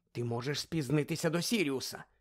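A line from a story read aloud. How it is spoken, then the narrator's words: Whispering. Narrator (Ukrainian): Вона зашепотіла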